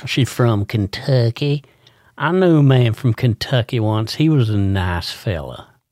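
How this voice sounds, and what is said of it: Put-on Kentucky accent. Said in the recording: “Kentucky. Kentucky. ... Oh, you had to do the accent.”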